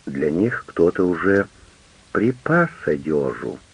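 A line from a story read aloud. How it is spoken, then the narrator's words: Affectionate remark. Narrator (Russian): ласково заметил Маровки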